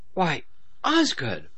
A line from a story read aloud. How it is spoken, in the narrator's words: Wolf exclaimed